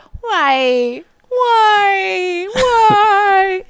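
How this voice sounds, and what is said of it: Screamed imitation of another person. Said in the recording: “she likes to do impressions ... her best Nancy Kerrigan impression ... Nancy Kerrigan screaming like why”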